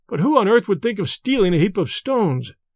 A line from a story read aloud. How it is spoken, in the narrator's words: cried a third